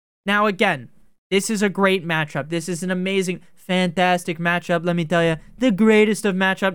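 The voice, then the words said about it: Weak Donald Trump impression. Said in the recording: “my Trump impression is not very good. Huge. I can't do it anymore.”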